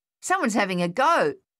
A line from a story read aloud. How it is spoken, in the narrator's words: Thaddeus yelled